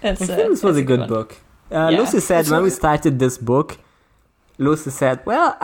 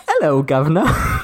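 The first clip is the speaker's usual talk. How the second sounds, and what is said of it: Put-on British accent. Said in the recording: “I need to get into my British voice.”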